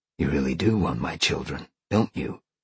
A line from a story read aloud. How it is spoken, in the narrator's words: Sean whispered in her ear